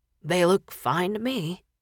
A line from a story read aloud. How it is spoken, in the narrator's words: Dean said huskily